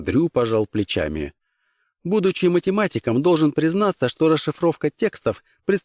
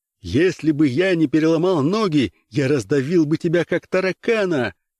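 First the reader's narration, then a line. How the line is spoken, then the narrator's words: Shouting. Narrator (Russian): кричал профессор Казьмин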